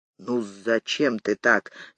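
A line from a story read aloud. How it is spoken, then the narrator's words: Gentle reproach. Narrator (Russian): мягко укорил Борис Иванович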